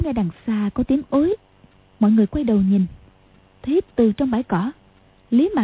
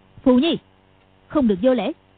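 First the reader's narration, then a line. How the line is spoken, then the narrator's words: Sharp rebuke. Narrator (Vietnamese): Hoàng Dung quát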